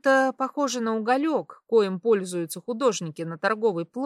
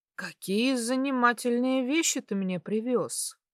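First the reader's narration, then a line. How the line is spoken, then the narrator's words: Muttered. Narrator (Russian): пробормотал Константин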